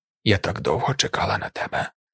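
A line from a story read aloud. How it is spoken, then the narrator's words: Whispered. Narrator (Ukrainian): прошепотіла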